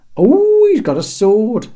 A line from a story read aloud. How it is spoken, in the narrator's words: shrieked Terry in mock terror